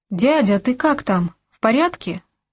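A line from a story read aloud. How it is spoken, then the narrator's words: Unguarded exclamation. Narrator (Russian): воскликнул я, мигом позабыв про всякую маскировку и скрытность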